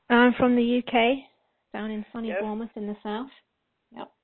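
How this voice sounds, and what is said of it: British accent from southern England. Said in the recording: “I know that you have an accent.”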